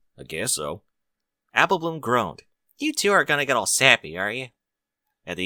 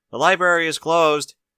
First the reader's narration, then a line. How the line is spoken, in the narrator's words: he called out